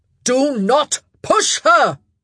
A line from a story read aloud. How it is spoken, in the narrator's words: Philip yelled